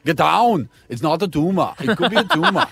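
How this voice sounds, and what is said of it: Arnold Schwarzenegger impression. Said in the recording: “Can you speak like Arnie?”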